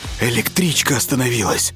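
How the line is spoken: Plain. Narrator (Russian): сказал он

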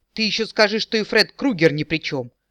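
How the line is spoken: Barked. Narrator (Russian): рявкнул эльф

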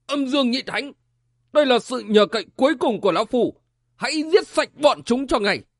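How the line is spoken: Frenzied loud shout. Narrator (Vietnamese): Quân Trung Thánh như điên cuồng hét vang

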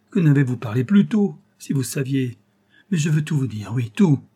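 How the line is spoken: Exclaimed. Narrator (French): s'écria

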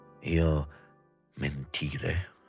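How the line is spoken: Quiet, hushed question. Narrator (Italian): domandava sottovoce

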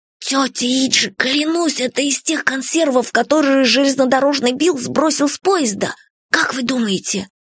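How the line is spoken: Choked whisper. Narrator (Russian): придушенным голосом прошептал

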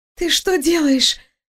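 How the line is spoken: Wheezing, caught off guard. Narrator (Russian): просипела она, явно не ожидая, что ее последний оплот падет

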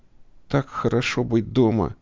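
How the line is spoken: Trembling voice. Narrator (Russian): говорю я дрожащим голосом

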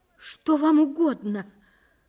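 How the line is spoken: Trembling voice. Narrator (Russian): произнесла она дрожащим голосом

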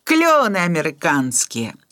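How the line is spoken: Sighing. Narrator (Belarusian): уздыхаў Лявон Іванавіч

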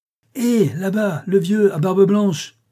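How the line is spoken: Shouting. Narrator (French): cria-t-il

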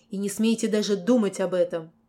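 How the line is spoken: Angry. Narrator (Russian): Сказано было зло

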